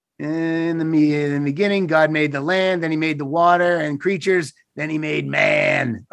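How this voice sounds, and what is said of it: Silly dumb-sounding voice. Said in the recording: “in my dumb voice”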